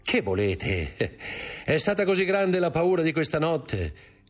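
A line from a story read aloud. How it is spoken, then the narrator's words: Said laughing. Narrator (Italian): disse ridendo Dantes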